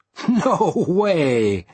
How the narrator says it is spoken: I said with a laugh

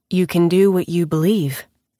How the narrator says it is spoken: Kit says calmly

